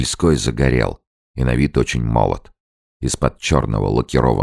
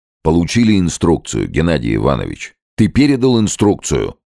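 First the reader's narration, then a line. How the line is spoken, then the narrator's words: Stern. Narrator (Russian): Строго обратился Муравьев к Корсакову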